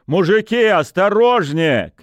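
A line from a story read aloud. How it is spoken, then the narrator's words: Shout. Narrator (Russian): крикнул Некрасов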